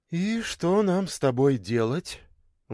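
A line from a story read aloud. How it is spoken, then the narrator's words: Sighed. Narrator (Russian): вздохнула Таня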